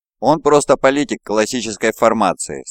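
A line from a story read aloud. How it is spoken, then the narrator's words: Plain. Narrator (Russian): сказал я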